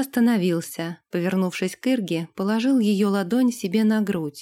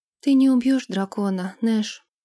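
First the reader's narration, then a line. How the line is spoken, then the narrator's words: Sigh. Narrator (Russian): вздохнула Ирга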